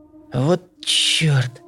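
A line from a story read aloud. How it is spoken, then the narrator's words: Quiet curse. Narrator (Russian): тихо выругалась Танька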